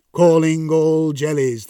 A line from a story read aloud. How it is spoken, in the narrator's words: they intoned